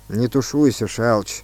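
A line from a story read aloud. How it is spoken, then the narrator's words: Gloomy. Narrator (Russian): сказал Сысоев мрачно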